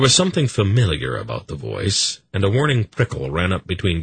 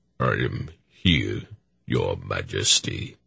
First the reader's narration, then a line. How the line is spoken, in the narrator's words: he said in a deep, resonant voice